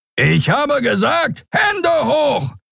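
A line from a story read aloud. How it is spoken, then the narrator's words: Bellowing. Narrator (German): brüllte der Skrier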